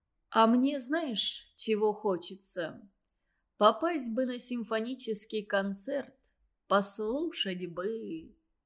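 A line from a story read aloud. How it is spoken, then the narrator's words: Confiding tone. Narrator (Russian): Доверительным тоном говорит Иван Иванович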